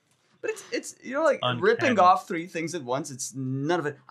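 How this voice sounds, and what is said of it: Usual voice. Nothing is said of it.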